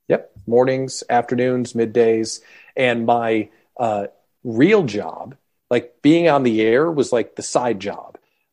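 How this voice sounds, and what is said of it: Polished radio announcer voice. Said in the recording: “you've got a good voice, a good radio voice.”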